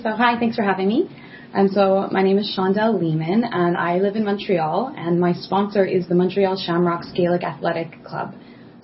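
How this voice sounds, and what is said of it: Newfoundland accent with Irish traces. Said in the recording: “listeners will notice a bit of an accent ... it's not an accent from Montreal ... you might think my accent is a bit fluid. It kind of changes. It's not an accent from Ireland either. I'm from Newfoundland”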